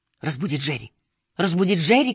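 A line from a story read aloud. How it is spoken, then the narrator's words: Shouting. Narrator (Russian): кричала она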